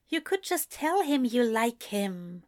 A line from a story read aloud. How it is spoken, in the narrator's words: Eliza said quietly, barely heard over everything else